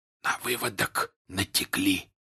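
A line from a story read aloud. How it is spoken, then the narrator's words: Whisper. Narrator (Russian): прошептал он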